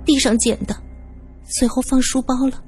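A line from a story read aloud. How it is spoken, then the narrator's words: Low voice. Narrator (Chinese): 元辰垂下眼帘，低声说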